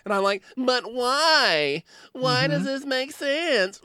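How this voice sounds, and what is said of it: Whiny self-impression. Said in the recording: “I'm so whiny ... you do a great impression of yourself”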